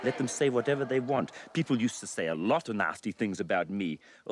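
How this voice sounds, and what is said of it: New Zealand accent. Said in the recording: “He comes off with a New Zealand accent ... Or sound. He's not even trying.”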